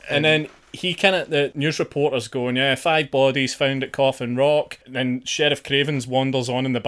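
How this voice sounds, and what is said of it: Usual voice. Nothing is said of it.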